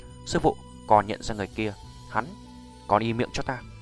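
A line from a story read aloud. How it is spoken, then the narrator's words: Quiet low voice. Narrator (Vietnamese): cô gái tên Tự Như lập tức nhỏ giọng với đạo cô bên cạnh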